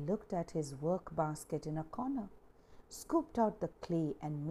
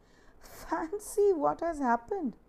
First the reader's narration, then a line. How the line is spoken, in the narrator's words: choked with mirth as he said